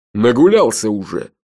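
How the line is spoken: Gloating snort. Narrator (Russian): злорадно хмыкнул Джуфин

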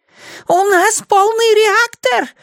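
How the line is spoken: Excited squeak. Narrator (Russian): возбужденно пищал механик

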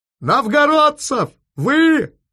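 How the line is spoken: Yelling into phone. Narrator (Russian): заорал в трубку Бриллинг

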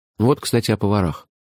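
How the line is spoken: Sigh. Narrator (Russian): вздохнул я

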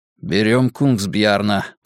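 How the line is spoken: Mutter. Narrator (Russian): пробормотал Вуко

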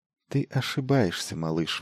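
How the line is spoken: Soft. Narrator (Russian): мягко обратилась она к нему

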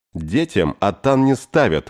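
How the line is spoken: Shout. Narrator (Russian): выкрикнула Эн

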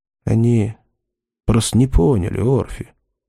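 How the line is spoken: Quiet. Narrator (Russian): тихо сказал Чарли

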